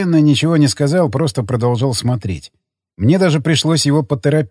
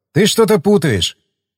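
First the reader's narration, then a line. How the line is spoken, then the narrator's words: Snort, then speaking. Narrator (Russian): Я хмыкнул, потом сказал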